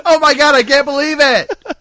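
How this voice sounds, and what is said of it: Excited, childlike delight. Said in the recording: “He sounds like a little kid on Christmas morning who got, like, the present that he'd been asking for all year”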